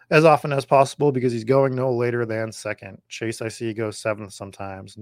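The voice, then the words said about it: Hoarse, strained voice. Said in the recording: “Oh God, I'm losing my voice.”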